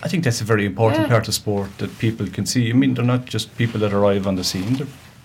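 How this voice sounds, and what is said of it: Local Whitegate accent. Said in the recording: “You still have your Whitegate accent anyway”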